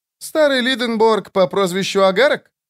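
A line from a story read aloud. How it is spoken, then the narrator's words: Laughing. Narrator (Russian): Лютик рассмеялся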